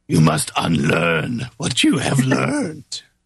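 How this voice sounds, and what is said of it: Yoda impression. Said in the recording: “You do a great impersonation.”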